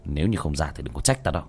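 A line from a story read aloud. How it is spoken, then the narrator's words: Cold. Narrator (Vietnamese): Tiểu Thất lạnh lùng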